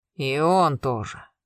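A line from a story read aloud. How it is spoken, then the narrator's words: Gloomy reply. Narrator (Russian): мрачно ответил Карпов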